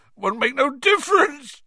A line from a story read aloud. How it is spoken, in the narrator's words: sobbed Hagrid